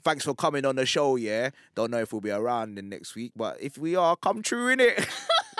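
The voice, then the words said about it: Put-on South London accent. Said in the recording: “I could do it in a South London one ... Oh my God, it's brilliant. ... I love this accent.”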